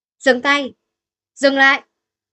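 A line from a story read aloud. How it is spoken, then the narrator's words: Resentful shout. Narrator (Vietnamese): Người của Dương Hòa hét lên, oán hận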